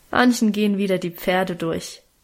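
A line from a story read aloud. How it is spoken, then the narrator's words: Good-natured mocking. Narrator (German): spottete Guste gutmütig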